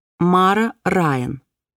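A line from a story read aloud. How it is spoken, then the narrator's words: Slow speech. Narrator (Russian): медленно проговорила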